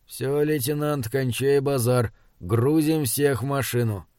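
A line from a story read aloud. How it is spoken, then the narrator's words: Quiet male voice. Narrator (Russian): чекист тихо произнес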